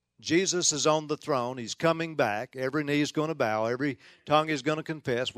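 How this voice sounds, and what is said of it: Mild Southern US accent, Tennessee-Oklahoma. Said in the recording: “I am from Tennessee. You might detect just a little bit of a southern accent ... what kind of accent is that? ... I pastored in Memphis 17 years and been in Oklahoma now about 11 years. So, folks, you are hearing an official Tennahoma accent”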